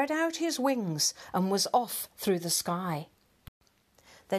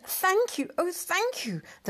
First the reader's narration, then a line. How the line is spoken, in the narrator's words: the grateful witch cried